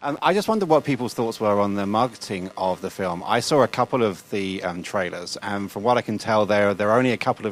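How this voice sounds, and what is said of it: Speaks with a distinct accent. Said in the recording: “Clearly from my accent, I'm the villain of the piece here.”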